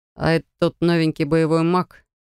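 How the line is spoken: Dismissive scoff. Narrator (Russian): Как-то слишком пренебрежительно хмыкнул Драфок

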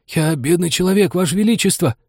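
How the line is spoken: Timid babbling. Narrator (Russian): залепетал шляпник

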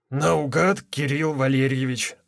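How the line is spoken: Hoarse male voice. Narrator (Russian): ответил мужчина с ярко выраженным хрипом

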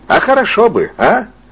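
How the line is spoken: Unexpectedly cheerful question. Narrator (Russian): Спросил неожиданно весело

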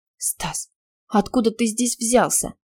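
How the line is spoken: Barely audible whisper. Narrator (Russian): прошептала чуть слышно

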